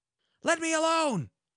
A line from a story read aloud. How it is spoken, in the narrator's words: cried Oberon, his eyes flashing fire